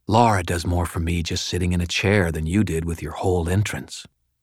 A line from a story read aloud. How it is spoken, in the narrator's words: fake whispered